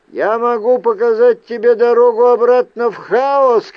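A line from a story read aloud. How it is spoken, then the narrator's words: Shout. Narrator (Russian): крикнул я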